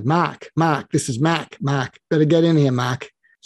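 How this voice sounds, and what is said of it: Thick Irish Catholic Boston accent. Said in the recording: “he had a thick Irish Catholic Boston accent.”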